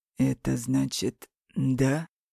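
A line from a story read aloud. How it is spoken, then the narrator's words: Hoarse. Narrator (Russian): Хрипло произносит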